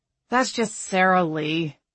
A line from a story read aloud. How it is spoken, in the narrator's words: Kyle sighed